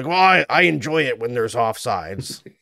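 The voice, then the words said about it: Imitates another person's voice. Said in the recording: “Spot on impersonation ... No, it's not very good.”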